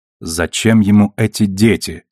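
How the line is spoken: Plain. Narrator (Russian): спросила Наоми

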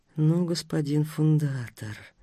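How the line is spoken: Astonished whisper. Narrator (Russian): с непроходящим изумлением прошептала Амалия Даниловна

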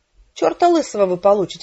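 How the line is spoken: Indignant reply. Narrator (Russian): возмущенно ответила я

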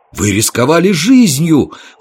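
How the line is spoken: Exclaiming in chorus. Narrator (Russian): хором воскликнули мы

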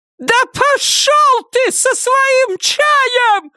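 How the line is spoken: Shrill high-pitched scream. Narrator (Russian): Завизжала она на самой высокой ноте, на какую только была способна

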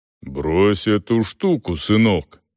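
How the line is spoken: Deep bass. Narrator (Russian): пробасил он

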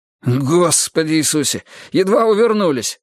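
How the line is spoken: Breathless. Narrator (Russian): выдохнул Джейсон

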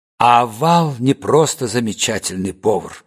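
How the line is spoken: Quiet, confidential. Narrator (Russian): произнес Степан негромко, как будто обращался только к нам с Гамегиным и надеялся, что ангел его не слышит

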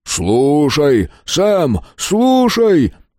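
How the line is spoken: Booming low voice. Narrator (Russian): прогремел низкий голос

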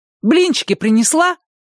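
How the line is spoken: Shout. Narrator (Russian): крикнула она

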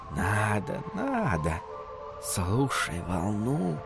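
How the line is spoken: Whispered reply. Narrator (Russian): шепнули в ответ дюны

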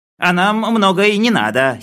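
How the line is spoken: Giggling. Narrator (Russian): хихикнул Хлебоводов

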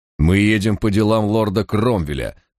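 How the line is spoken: Frowning, through teeth. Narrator (Russian): нахмурившись, процедил Барак

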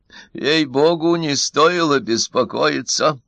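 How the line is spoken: Hoarse. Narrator (Russian): хрипло произнес Минц

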